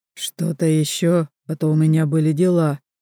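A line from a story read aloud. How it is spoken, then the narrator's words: Through gritted teeth. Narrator (Russian): сквозь зубы говорит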